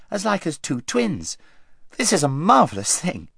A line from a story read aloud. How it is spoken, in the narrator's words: exclaimed Queen Lucy